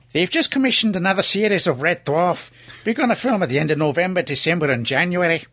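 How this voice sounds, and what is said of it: Northern English accent, nearly Scouse. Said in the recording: “That was so nearly a Scouse accent. ... A bit further north, I think.”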